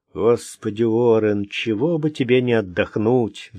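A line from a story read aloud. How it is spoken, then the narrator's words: Sighing. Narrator (Russian): вздохнул он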